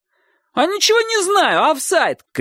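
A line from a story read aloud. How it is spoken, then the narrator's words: Shouting goalkeeper. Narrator (Russian): крикнул вратарь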